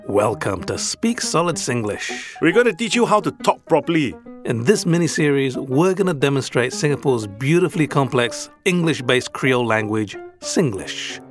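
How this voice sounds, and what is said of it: Awkward, rigid British accent. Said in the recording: “my awkward and rigid British accent”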